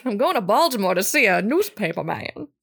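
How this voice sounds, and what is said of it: Put-on old-fashioned transatlantic accent. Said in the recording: “I should have done the whole thing in a transcontinental accent.”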